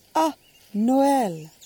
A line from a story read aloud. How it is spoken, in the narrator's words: the ash blonde lady exclaimed indulgently